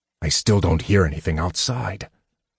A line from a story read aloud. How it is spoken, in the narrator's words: Sturm muttered